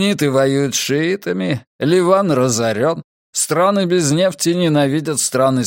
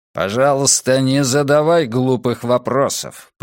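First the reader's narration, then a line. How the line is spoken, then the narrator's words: Growl. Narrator (Russian): прорычал Зейк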